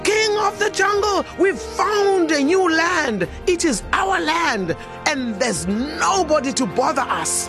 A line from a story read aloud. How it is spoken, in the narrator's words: the cheetah called out